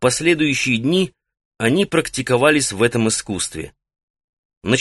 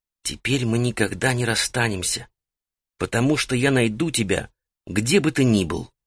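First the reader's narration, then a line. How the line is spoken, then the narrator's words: Sleepy whisper. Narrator (Russian): она перед тем, как заснуть, прошептала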